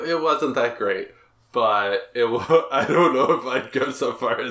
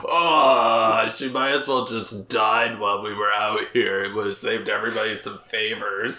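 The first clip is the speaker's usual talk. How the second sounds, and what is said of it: Accurate impression of a co-host. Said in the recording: “that impersonation of me was really accurate”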